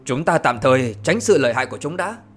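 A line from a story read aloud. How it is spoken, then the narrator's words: Low sharp shout. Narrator (Vietnamese): Thủy Tiên Phi Tử quát nhỏ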